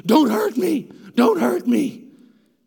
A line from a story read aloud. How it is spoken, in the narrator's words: the demon-possessed man starts screaming